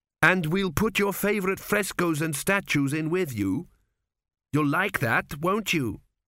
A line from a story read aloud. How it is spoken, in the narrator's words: said Tepic desperately